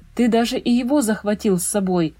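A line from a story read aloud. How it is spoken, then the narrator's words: Exclaiming. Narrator (Russian): воскликнул он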